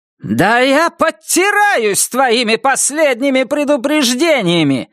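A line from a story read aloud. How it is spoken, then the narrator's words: Shout. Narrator (Russian): закричала она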